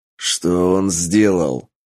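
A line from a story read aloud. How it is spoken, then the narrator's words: Barked. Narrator (Russian): рявкнул Тапок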